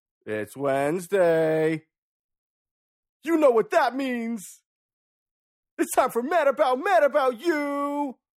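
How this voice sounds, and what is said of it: Radio DJ voice. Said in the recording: “Great DJ voice.”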